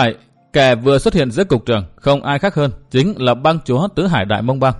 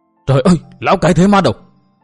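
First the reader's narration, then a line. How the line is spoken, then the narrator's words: Crowd crying out, shocked. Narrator (Vietnamese): những người hiện diện nơi đây nhất loạt kêu lên bằng một giọng thẳng thốt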